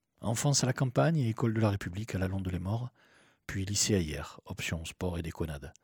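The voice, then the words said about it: Southern French accent. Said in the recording (French): “Je suis un gazier du Sud ... D'où un petit accent plein de cigales.”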